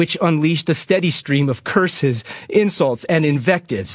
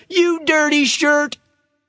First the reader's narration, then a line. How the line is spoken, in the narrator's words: the Eagle was heard shouting